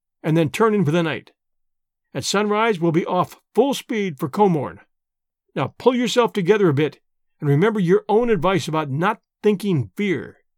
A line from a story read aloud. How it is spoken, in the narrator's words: I said firmly